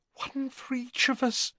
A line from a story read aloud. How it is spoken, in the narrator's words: said Hermione in a terrified whisper